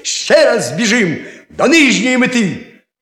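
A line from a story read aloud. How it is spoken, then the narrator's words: Frustrated shout. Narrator (Ukrainian): не тямаючи себе з досади, крикнув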